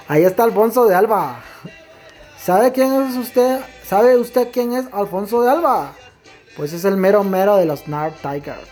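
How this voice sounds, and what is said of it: Imitates another person's accent. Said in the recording (Spanish): “así, con ese acento”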